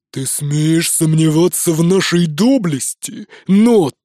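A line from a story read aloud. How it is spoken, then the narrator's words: Growled. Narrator (Russian): прорычал Ури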